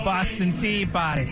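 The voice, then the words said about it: Attempted Boston accent. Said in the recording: “that was your Boston accent right there?”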